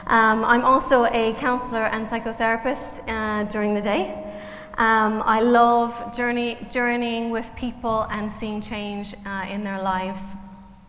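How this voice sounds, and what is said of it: Canadian accent with Irish twang. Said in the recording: “I'm Canadian, so if you're trying to work out my accent ... I've been working on my Irish accent for 21 years, so I've got some twang of Ireland, but I'm still Canadian.”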